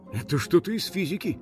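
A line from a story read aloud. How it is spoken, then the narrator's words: Mutter. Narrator (Russian): пробормотал один полицейский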